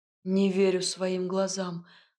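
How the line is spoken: Breathless exhale. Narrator (Russian): выдохнул Ив

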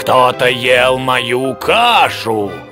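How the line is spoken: Growling bear father. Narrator (Russian): прорычал папа-медведь

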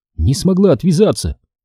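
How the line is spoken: Sighed. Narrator (Russian): вздохнула Сью

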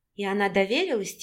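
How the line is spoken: Quiet question. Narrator (Russian): тихо спросила Вика

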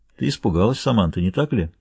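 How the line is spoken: Man's muffled question. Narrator (Russian): спросил мужчина приглушенным голосом

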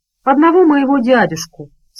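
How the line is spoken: Calm, courteous. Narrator (Russian): спокойно продолжал Джим, сама учтивость

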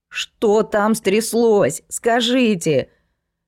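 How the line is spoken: Shout. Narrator (Russian): крикнула она

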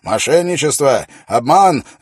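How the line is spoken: Shouting. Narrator (Russian): закричал он

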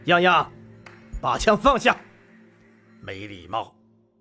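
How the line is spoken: Stern, forceful male rebuke. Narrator (Chinese): 吴恙身后响起一道苍劲有力的男声，厉声斥责道

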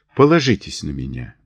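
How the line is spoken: Soft. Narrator (Russian): мягко произнес

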